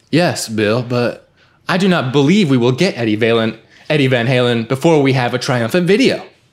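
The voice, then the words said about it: Imitates a movie character's voice. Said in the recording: “My Ted impression was a disaster”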